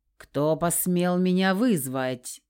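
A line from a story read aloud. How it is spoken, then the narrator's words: Angry demand. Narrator (Russian): вопросила гневная дамочка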